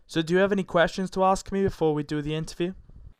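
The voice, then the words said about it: British accent. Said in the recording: “I bet you can tell by my accent. I'm actually in the UK.”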